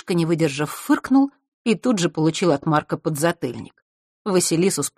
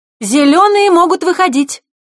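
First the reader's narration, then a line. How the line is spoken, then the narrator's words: Ringing shout. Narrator (Russian): Звонко крикнула вожатая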